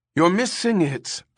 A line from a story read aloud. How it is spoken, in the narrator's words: Ermgard called anxiously to Pris